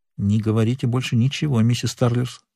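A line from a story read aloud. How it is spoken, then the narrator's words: Whispered. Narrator (Russian): шепнул Нат Пинкертон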